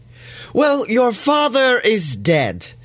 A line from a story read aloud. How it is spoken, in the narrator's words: she exclaims